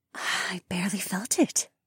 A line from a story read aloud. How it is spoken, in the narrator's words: she whispered with a smile